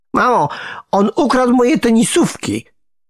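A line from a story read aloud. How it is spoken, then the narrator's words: Yelled. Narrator (Polish): wrzasnął Nikodem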